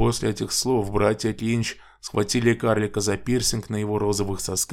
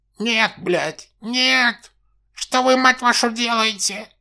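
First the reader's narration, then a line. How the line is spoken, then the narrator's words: Dwarf shrieking. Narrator (Russian): Завизжал карлик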